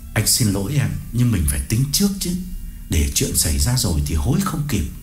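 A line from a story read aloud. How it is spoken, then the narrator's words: Lowered voice. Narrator (Vietnamese): Cương hạ giọng đáp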